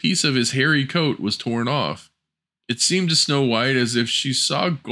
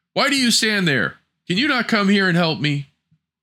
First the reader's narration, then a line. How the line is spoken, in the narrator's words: He cried